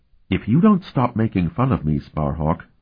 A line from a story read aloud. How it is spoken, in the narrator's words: she murmured for his ears alone